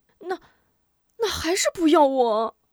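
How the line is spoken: Panicked whimpering. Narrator (Chinese): 吴中又慌了，哭唧唧道

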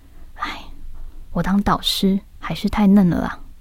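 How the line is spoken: Muttering to himself. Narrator (Chinese): 邱老师喃喃自语着

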